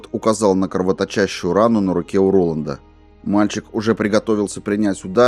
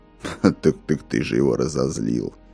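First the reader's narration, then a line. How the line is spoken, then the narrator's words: Grumbling mutter. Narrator (Russian): пробурчал Корт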